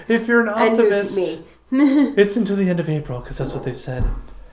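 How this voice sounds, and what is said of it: Dramatic theatrical voice. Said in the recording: “What's that voice? ... It's my dramatic voice.”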